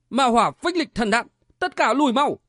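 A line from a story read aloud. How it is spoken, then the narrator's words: Alarmed cry. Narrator (Vietnamese): Hoa Như Ngọc biến sắc kêu lên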